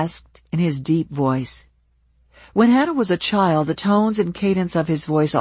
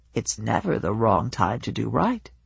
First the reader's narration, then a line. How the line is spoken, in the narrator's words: he said in a gentle voice